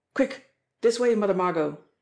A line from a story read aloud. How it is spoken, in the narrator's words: Jimmie Dale called out sharply